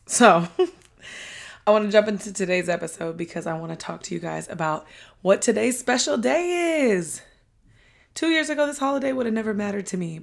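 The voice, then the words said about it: Breathless, loud, hoarse voice. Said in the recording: “do you guys hear I'm out of breath? It's because I'm talking so loud. Well, I'm like trying to talk so loud because I lost my voice again.”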